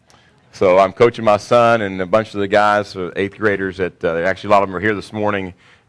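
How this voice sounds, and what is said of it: Crackly, strained voice. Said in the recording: “my voice is a little bit crackly this morning ... I got my coach's voice here for the next few weeks”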